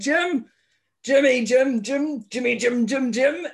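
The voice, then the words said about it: Imitates another person's voice. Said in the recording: “Your Billy Connolly impression is pretty good. ... It's better when I'm sick ... it's my cold voice”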